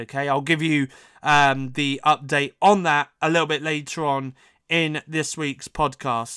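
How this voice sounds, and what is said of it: Voice rough from a cold. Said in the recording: “my voice is still not 100%... this cold has been with me for the last few weeks now... I've had a terrible cough”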